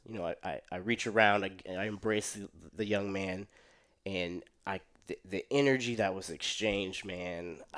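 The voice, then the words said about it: Shaky, emotional voice. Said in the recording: “my voice is a little shaky, just kind of recalling it”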